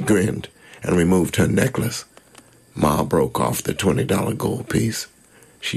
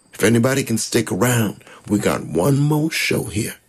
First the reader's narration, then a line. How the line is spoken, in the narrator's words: she said